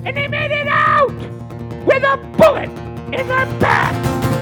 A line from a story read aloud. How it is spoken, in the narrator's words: doing imitations of his boyhood hero, yelling